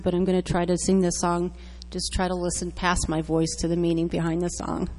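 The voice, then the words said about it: Slightly raspy voice. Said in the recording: “I am a little raspy”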